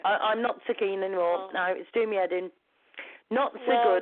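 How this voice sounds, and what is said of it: Hoarse, strained voice. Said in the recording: “I think I've lost my voice through shouting to her”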